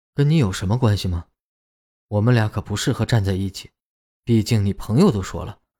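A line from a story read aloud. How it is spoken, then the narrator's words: Cold. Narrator (Chinese): 冷冷的说道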